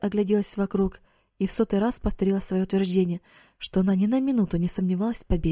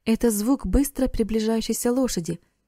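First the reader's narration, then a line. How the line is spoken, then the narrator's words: Exclamation. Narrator (Russian): воскликнул Эрик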